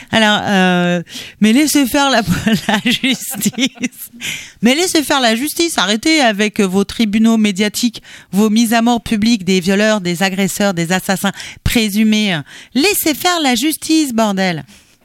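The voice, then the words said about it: Gérard Darmon impression. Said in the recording (French): “Je vais encore prendre une sorte d'accent ... Tu peux prendre la voix de Gérard Darmon dans « La Cité de la peur ». ... Darmon, carrément. Je sais que ma thyroïde appuie sur mes cordes vocales”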